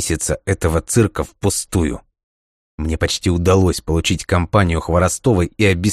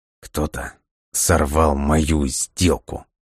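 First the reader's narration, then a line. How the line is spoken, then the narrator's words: Through gritted teeth. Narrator (Russian): процедил сквозь зубы Лесков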